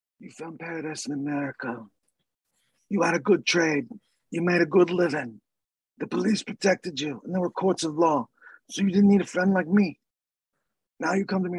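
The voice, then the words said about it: Bad impression of film mobster. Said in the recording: “your bad impression”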